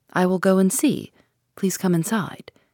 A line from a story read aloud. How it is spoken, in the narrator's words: said in a low voice